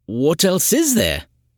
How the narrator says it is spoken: he blurted out

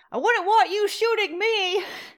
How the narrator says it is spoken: shouting across the street

